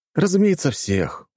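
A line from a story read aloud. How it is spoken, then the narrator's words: Weary sigh. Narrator (Russian): устало вздохнул я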